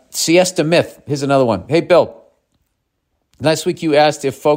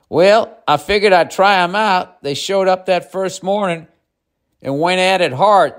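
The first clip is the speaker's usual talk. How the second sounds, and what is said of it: Put-on Southern accent. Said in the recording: “Southern accent.”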